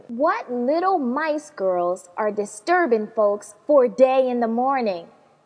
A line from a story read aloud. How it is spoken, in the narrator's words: Daddy grumbled, pretend acting angry